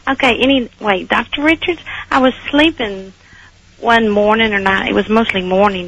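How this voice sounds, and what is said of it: Texas accent. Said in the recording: “I hear your Texas accent... I can't lose it. I tried.”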